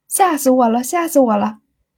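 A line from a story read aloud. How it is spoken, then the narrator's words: Hearty laughter. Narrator (Chinese): 秀珠倒是……笑得前仰后合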